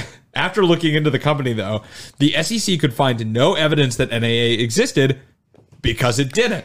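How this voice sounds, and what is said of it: Usual voice. Nothing is said of it.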